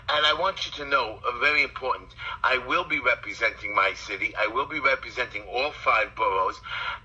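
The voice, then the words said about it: Brooklyn accent. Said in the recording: “I like your accent ... accent you hear is a Brooklyn accent.”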